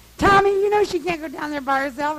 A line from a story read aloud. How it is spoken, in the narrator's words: I'm hollering